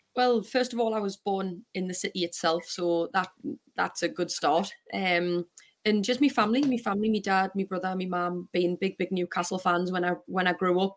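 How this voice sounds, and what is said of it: Geordie accent. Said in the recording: “you're a Geordie at heart, you've got the accent”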